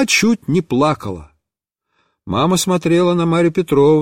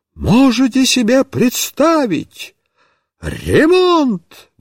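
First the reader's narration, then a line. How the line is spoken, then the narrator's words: Exclamation. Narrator (Russian): воскликнула Марья Петровна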